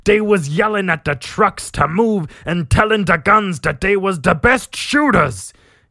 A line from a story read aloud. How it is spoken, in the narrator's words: he yells